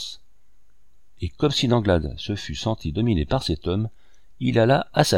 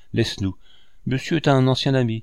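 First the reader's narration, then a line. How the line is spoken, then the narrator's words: Stammering. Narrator (French): balbutia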